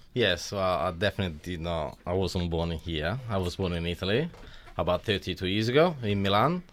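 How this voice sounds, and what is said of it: Italian accent. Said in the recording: “such a great Italian accent”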